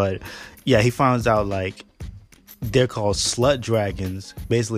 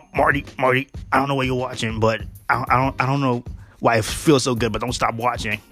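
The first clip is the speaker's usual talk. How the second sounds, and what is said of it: Bad impression of cartoon character. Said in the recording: “my bad Rick impression”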